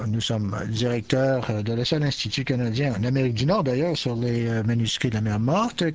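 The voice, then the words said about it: South African accent speaking French. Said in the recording (French): “je suis de l'Afrique du Sud et je veux que vous vous accaparez et accompagnez et adoptez à mon accent”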